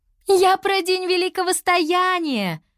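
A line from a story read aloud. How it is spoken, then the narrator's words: Laughing. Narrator (Russian): рассмеялась Лиана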